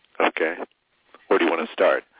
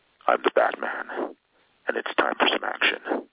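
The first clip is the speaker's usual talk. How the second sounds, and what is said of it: Slightly lower Batman character voice. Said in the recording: “he does the voice of Batman ... when I do any kind of Batman, it's really the closest one to my natural voice. I just let it sort of go a little bit lower”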